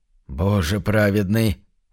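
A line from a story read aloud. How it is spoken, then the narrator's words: Confused mumble. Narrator (Russian): растерянно промямлил Уордл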